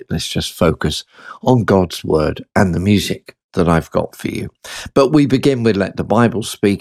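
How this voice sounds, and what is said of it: Croaky, hoarse voice. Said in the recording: “Bit of a croaky ... My voice is still playing up a bit, so it's sort of coming and going.”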